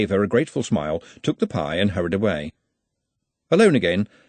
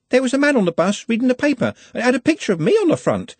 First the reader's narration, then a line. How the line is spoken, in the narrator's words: said excitedly